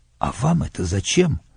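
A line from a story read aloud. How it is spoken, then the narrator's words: Whispered question. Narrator (Russian): спросил я его шепотом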